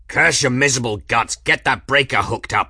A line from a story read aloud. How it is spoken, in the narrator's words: Journeyman bellowed